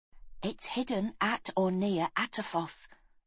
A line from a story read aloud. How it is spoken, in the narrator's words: whispered Galen